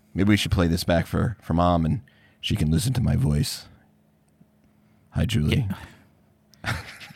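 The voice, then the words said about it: Rough, hoarse voice. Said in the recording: “it's not good for the voice... So I sound a little rough.”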